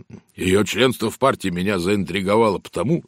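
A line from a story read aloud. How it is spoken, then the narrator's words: Plain. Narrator (Russian): сказал инспектор Шарп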